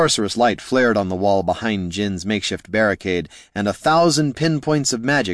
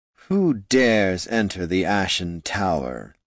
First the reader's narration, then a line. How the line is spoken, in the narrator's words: intoned the cold, hollow voice